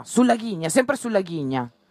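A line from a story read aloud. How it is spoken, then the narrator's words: Shout. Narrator (Italian): gridava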